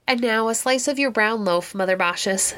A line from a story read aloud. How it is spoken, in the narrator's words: said Quicksilver